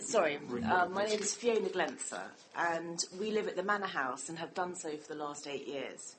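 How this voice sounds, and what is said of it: Hoarse, sore-throated voice. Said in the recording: “I've got a bit of a sore throat”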